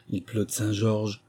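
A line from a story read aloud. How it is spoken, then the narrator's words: Pitiful tone. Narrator (French): répétait Fanfan d'un ton piteux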